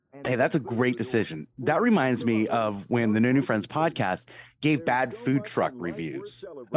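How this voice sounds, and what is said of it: Sick-sounding, strained voice. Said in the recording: “your voice sounds really weird today... I'm a little bit under the weather.”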